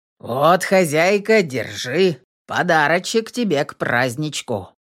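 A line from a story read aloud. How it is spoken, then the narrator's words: Deep bass, burly man. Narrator (Russian): пробасил здоровенный мужик в тулупе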